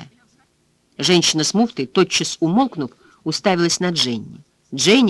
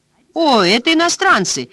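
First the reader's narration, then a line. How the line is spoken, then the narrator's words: Woman exclaiming. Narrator (Russian): воскликнула одна из них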